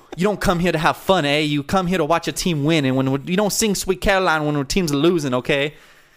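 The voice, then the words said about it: Boston accent. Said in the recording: “in a Boston accent.”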